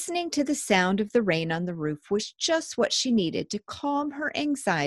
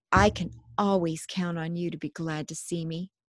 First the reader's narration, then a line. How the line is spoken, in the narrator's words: whispered